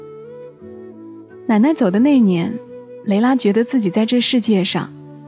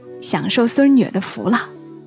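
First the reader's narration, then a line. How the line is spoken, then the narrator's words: Laughing grandmother. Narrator (Chinese): 奶奶笑说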